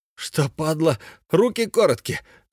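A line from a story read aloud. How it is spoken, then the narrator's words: Gloating exclamation. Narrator (Russian): злорадно воскликнул Сашка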